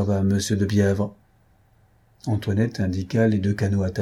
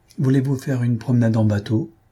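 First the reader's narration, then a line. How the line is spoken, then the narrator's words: Exclaiming. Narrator (French): Jacques s'écria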